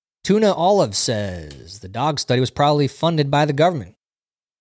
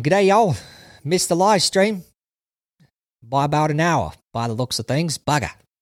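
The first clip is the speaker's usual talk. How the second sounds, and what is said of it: Put-on Australian accent. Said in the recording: “How'd you like that Australian accent”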